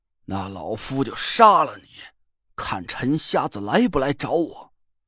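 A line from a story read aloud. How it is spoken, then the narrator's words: Furious roar over phone. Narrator (Chinese): 郑玄暴怒起来，电话那边传来他的嘶吼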